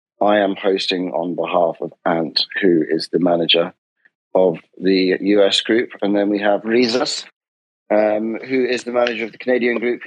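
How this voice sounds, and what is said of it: British accent. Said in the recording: “has a British accent”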